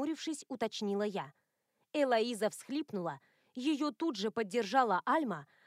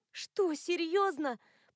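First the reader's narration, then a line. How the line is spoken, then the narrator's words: Incredulous groan. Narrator (Russian): простонала я, не в силах поверить в происходящее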